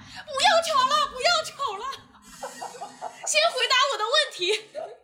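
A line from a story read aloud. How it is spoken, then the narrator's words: Woman shouting over phone. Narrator (Chinese): 幺幺零接线员是个女的，她在电话里面大喊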